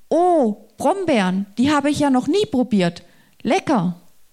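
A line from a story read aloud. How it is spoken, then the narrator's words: Animal calling out. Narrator (German): Ein Tier rief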